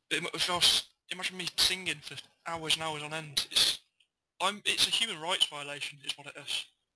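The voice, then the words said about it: Strained, fading voice. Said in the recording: “You can hear now that I'm losing my voice because I've been talking for, like, 10 minutes.”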